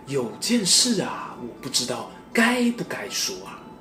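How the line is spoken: Hushed. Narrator (Chinese): 杨太太压低声音说

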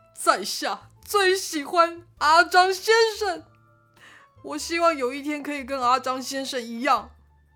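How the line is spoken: Shouting, holding back tears. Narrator (Chinese): 三十郎，他非常努力地压抑他止不住的泪水，大声地喊着

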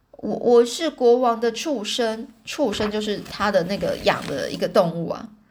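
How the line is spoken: Low voice. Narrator (Chinese): 那个人 就低声说

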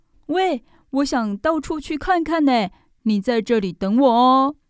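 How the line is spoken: Sudden shout. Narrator (Chinese): 宝儿突然对小兔子大喊

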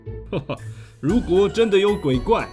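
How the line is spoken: Laughing. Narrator (Chinese): 阴天官也笑着说

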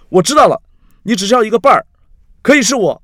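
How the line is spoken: Loud. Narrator (Chinese): 他站起来，指着凯瑞，大声地说

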